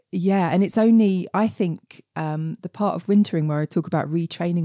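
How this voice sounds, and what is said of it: Estuary English accent. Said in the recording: “I'm from a part of England um, that's famous for having a really ugly accent ... we have a term for it that's estuary English, and I definitely speak estuary English”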